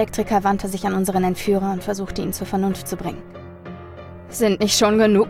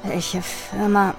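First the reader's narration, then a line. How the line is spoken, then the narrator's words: Murmured. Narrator (German): murmelte er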